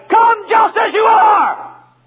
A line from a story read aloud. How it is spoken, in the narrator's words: the preacher shouted